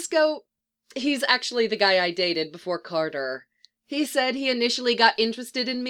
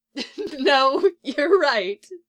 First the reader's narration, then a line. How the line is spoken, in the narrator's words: she says, giggling